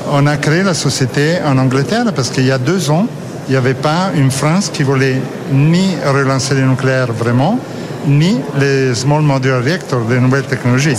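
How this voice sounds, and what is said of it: Slight Italian accent in French. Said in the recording (French): “vous êtes italien? Vous avez encore un petit accent, mais vous parlez très bien français.”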